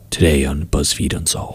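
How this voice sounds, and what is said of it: Mysterious podcast narrator voice. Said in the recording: “my mysterious podcast voice.”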